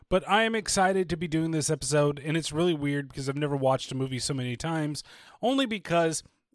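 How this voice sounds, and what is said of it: Slightly strained voice. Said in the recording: “as you can probably tell already, my voice is still just a little bit strained”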